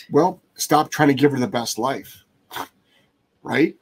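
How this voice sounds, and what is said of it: Sarcastic tone. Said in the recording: “I'm saying that sarcastically,”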